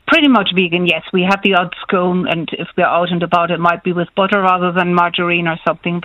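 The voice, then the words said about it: Slight German accent. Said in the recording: “a German tinge to your accent”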